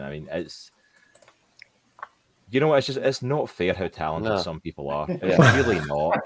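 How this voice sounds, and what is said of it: Distinctive accent. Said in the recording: “none of us have an amazing accent ... I've got the accent”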